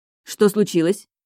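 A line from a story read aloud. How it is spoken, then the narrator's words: Sharp question. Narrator (Russian): спрашиваю довольно резко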